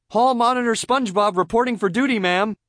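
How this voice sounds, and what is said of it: Barking drill sergeant voice. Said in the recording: “in a drill sergeant voice”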